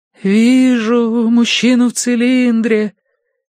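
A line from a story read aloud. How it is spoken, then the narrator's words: Mournful drawl. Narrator (Russian): заунывно протянула она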